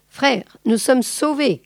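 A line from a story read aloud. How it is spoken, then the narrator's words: Exclaiming. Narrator (French): s'écria-t-elle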